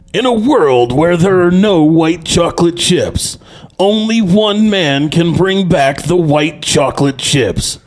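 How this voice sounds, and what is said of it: Deep movie trailer narrator voice. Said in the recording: “really deep voice that sounds like the movie trailer guy”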